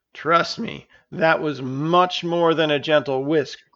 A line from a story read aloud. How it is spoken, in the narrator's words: groaned Versera